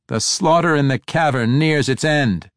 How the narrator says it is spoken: Tiago shouted

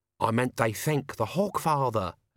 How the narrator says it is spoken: Albert hissed

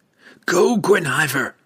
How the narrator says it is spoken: Drizzt shouted

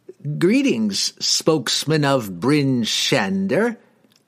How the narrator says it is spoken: he cackled

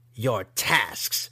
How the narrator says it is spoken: she echoed scornfully

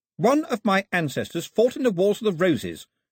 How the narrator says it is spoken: she announced haughtily

